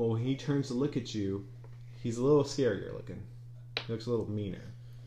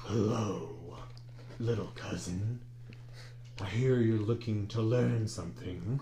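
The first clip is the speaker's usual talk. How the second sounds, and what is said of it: Smoky character voice. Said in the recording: “his voice is a little smokier”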